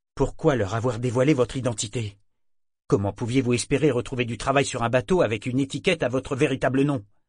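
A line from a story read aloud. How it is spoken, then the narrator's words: Sharp, cutting question. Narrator (French): demanda d'un ton tranchant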